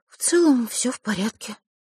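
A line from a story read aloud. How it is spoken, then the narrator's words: Dejected sigh. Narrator (Russian): сокрушенно вздохнула Василиса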